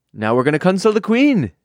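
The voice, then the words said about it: Put-on accent of unclear origin. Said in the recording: “I don't know what this accent is... It's not a country at all.”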